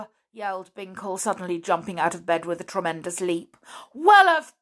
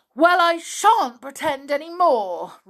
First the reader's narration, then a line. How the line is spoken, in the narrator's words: roared Binkle